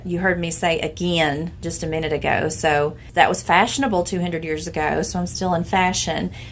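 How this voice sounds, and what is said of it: Southwest Virginia Appalachian accent. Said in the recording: “the phonetic glide, get, forget, pin, pin. I do that... The short I in words like light and night, you hear that in my... I'm from Lee County, Virginia... that's what you hear in my voice”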